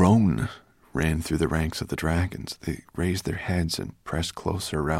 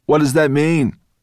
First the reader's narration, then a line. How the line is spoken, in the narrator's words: one of the dragons called out